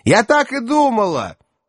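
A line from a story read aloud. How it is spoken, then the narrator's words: Shouting into ear. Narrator (Russian): уже прямо в ухо прокричала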